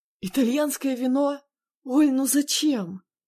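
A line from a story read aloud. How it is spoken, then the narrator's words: Groan. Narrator (Russian): Застонал Андрей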